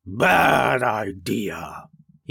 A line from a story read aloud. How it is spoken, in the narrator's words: he growled